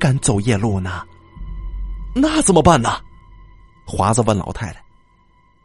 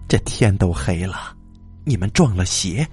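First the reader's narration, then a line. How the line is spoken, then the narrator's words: Old woman sighing. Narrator (Chinese): 老太太叹着气说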